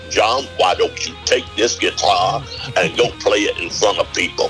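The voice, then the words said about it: Impression of a friend's father. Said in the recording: “I try to do an impression of him.”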